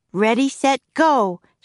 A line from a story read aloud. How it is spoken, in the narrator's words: shouted Annie